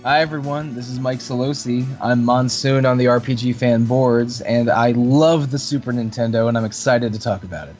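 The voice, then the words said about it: Enthusiastic, upbeat delivery. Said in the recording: “You sound enthusiastic.”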